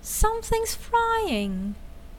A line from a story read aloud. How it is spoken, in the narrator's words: cried sister